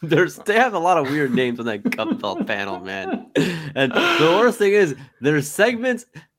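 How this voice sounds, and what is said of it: Usual voice. Nothing is said of it.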